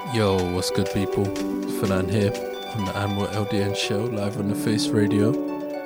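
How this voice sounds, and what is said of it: Voice affected by a cold. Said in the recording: “I'm struck down with a bad one, so you'll probably hear it in my voice”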